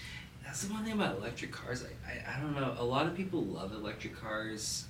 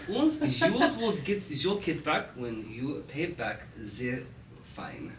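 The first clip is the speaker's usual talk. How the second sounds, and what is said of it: Poor put-on German accent. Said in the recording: “That was a terrible German accent.”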